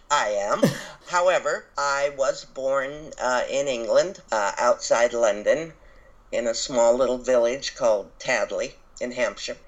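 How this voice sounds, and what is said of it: American accent. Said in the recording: “you sound solidly American”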